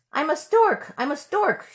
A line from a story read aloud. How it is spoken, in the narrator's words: she cried